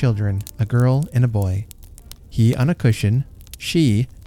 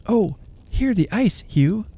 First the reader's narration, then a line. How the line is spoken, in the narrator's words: she cried